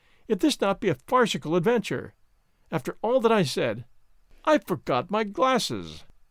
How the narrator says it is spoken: he cries

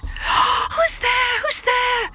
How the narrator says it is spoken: shouted the couple, startled by such an intrusion

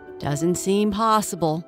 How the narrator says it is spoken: grumbled an exotic short-haired cat who was as grumpy as he looked

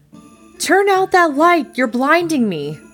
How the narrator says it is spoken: yelled

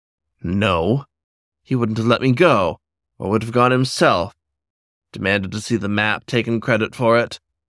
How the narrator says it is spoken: Agathocles grunted

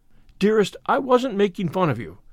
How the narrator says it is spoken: cried Anne repentantly

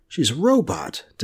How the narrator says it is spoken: Devin exclaimed

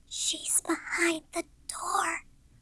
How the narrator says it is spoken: she whispered suddenly

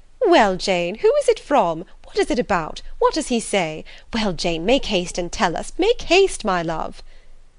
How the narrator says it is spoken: eyes sparkled with pleasure, and she was eagerly calling out

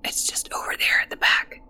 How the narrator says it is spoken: whispered the boy

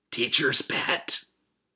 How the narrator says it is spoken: Chris hiss at him

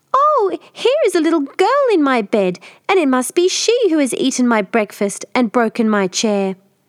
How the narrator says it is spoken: squeaked out

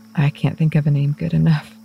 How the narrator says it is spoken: admitted with a breathy laugh

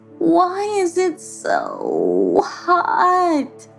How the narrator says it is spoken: She moaned

